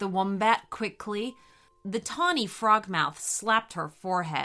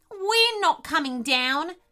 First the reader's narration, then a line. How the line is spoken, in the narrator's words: shouted the echidna bravely